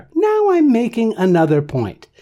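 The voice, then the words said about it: Voice shifts to higher pitch. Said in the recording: “how my voice went up there ... by simply shifting the pitch of my voice”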